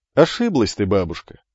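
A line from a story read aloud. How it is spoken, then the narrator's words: Young man laughing. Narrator (Russian): рассмеялся юноша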